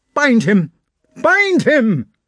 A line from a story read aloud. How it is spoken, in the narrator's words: he shouted